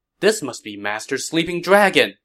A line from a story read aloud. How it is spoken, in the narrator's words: Liu Bei exclaimed